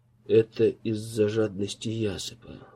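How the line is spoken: Breathy exhale. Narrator (Russian): выдохнул Голбис

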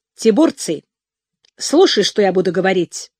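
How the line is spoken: Commanding female voice. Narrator (Russian): сказала она повелительным тоном

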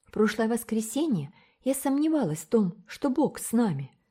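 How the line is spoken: Plain. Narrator (Russian): сказала Рилла

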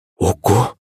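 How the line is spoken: Frightened exclamation, mother. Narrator (Russian): испуганно воскликнула маман

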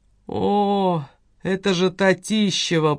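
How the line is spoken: Creaky voice. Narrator (Russian): проскрипел другой голос, принадлежавший Зинаиде Аполлинарьевне

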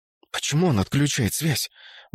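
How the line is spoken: Indignant whisper. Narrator (Russian): возмущенно шепнула Вера Шварц

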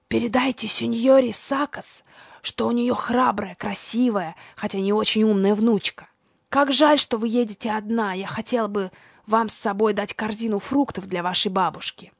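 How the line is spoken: Old man's loud whisper. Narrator (Russian): старик сказал мне громким шепотом

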